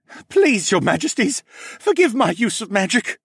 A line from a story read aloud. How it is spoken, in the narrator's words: the mage begged